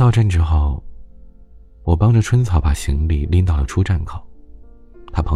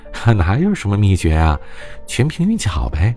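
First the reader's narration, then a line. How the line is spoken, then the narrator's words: Laughing heartily. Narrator (Chinese): 春草哈哈大笑的说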